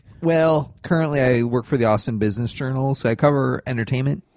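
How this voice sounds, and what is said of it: Nasal Michigan accent. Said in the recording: “I'm a Michigander originally, if you can't tell by the nasally accent.”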